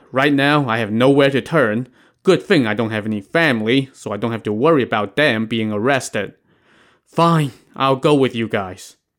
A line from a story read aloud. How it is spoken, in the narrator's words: Li Yun let out a long sigh and said